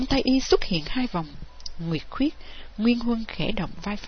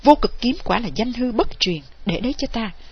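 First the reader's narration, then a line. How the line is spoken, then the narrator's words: Loud shout. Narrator (Vietnamese): y quát lớn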